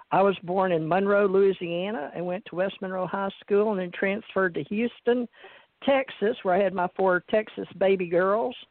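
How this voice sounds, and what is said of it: Slight Southern American accent. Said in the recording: “you may hear a little southern accent”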